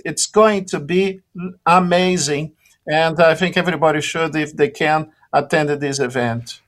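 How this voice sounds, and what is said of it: Brazilian accent. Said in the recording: “listeners can hear your Brazilian accent”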